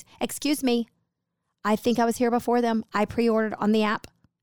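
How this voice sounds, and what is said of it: Entitled demanding Karen-style voice. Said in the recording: “in my best Karen voice, you know, in my best K voice.”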